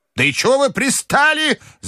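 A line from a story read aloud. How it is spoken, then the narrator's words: Shouting. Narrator (Russian): закричала бабушка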